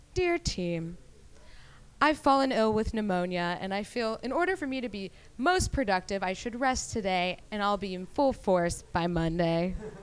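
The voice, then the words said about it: Mock pompous formal email voice. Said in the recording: “in my best douchebag email voice”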